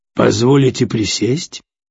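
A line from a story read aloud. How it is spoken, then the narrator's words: Polite, calm, dignified old man. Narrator (Russian): говорит седой, вежливо, но спокойно, с чувством собственного достоинства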